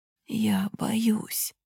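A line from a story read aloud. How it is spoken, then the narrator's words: Quiet whisper. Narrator (Russian): тихо шепчет он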